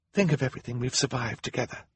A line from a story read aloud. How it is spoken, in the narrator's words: Violet whispered